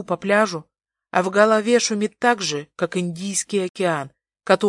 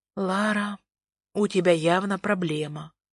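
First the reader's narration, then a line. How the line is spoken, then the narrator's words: Whispered smirking snort. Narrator (Russian): хмыкаю я шепотом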